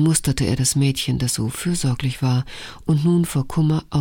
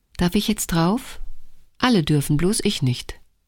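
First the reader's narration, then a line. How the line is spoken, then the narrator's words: Cheerful question. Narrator (German): fragte fröhlich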